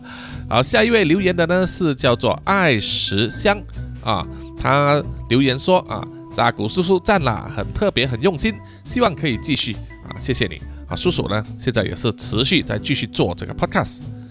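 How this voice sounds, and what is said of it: Speaker's distinctive accent. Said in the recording (Chinese): “很喜欢叔叔的口音”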